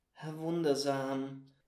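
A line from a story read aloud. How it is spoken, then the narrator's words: Quiet. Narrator (German): sagte er leise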